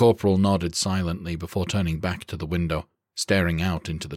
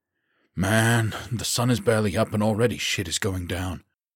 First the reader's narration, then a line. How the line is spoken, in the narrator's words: Baker groaned